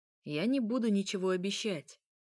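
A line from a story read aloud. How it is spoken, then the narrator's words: Plain. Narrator (Russian): сказал он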